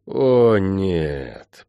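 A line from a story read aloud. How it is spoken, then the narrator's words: Groan. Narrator (Russian): простонал я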